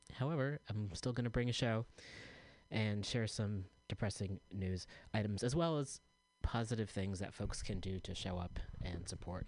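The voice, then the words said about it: Low-energy, tired voice. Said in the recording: “I'm feeling super low energy today, as you can probably tell from my voice.”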